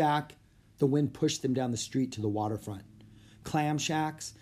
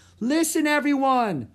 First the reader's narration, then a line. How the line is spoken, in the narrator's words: shouted Annie